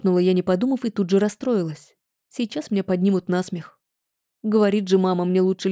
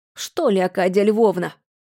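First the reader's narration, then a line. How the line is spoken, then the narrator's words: Snapping retort. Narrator (Russian): огрызнулась хранительница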